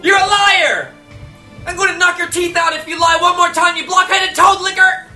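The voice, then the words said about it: Shouting angrily. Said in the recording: “you're shouting”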